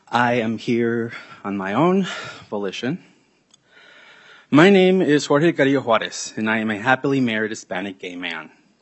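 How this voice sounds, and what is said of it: Out of breath speech. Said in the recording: “I'm a little out of breath. I was running from the third stairs.”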